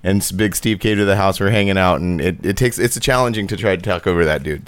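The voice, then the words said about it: Slightly hoarse voice. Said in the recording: “My voice is. ... So if I'm a little hoarse, you have to excuse me.”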